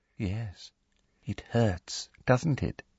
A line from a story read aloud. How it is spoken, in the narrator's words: she said softly